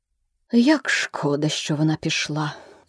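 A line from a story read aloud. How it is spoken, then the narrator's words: Sighing parrot. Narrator (Ukrainian): зітхнув папуга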